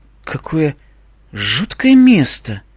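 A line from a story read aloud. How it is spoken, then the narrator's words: Quiet speech. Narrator (Russian): тихо сказала Искорка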